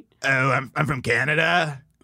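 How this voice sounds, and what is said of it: Scratchy raspy impression voice. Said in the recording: “do a Ryan Long impression ... you just did any scratchy voice ... the raspy voice”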